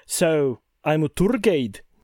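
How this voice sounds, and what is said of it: Poor attempt at Glasgow accent. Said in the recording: “somewhere in between Mel Gibson's Braveheart and Shrek ... That's not very good ... I haven't nailed a Glasgow accent ... It does need a little bit of work.”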